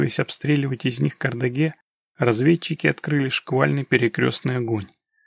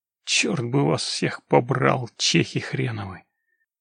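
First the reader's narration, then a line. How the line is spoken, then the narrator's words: Muffled cursing. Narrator (Russian): Глухо выругался Локис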